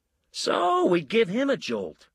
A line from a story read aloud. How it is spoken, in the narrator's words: Lou said brightly